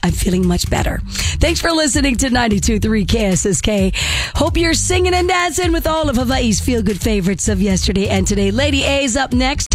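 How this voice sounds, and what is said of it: Voice not fully recovered. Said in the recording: “my voice is still not 100%”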